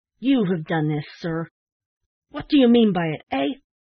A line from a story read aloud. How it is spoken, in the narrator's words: a feeling of intense indignation unaccountably took possession of him, and he turned fiercely on the old gentleman, exclaiming